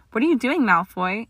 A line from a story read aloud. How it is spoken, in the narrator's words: Hermione panted, catching her startled breath